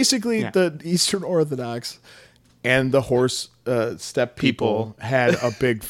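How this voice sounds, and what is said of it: Usual voice. Nothing is said of it.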